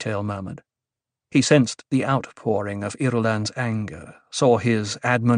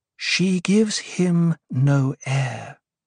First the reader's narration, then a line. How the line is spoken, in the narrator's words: Irulan said, her voice measuring out controlled calmness